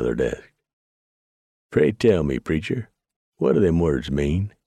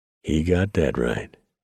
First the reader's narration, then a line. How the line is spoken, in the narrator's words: Ballard said solemnly